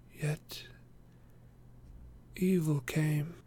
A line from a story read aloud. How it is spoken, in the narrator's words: answered Legolas sadly